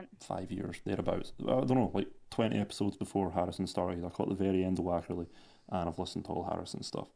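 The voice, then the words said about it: Scottish Edinburgh accent. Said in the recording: “Can you place that accent? ... Edinburgh. ... It's Edinburgh, man, that accent.”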